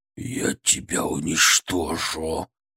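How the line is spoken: Growling. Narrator (Russian): прорычал он

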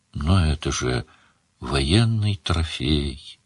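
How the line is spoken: Sad. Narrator (Russian): грустно сказала Мара

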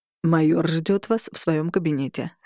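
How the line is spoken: Plain. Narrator (Russian): сказал Трой

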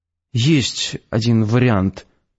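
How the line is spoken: Uncertain. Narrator (Russian): неуверенно сказал я

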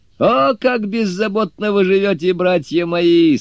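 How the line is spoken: Laughing. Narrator (Russian): смеясь сказал Суню-кун

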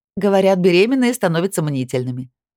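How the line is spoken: Laughing over phone. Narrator (Russian): рассмеялась Натали в трубку

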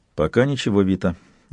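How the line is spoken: Quiet. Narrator (Russian): ответил он так же тихо

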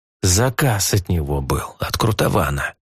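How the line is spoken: Lowered to whisper. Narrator (Russian): понизил Грикс голос до шепота

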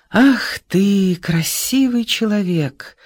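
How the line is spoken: Soft, smiling. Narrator (Russian): улыбнулся мягко Исаев

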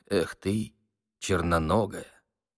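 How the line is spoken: Through gritted teeth. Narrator (Russian): проговорив сквозь зубы

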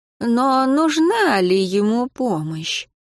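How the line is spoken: Dead man asking. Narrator (Russian): спросил мертвец

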